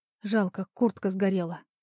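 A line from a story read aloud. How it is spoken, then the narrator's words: Said quietly. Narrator (Russian): тихо сказала я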